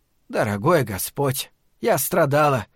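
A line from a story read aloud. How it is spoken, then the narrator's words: Gloomy exclamation. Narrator (Russian): мрачно воскликнула она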